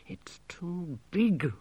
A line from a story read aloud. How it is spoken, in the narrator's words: muttered Gerda, trying not to look